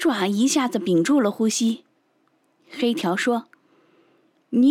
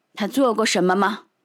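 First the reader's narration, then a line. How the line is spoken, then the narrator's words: Cold question. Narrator (Chinese): 蓝星冷冷地问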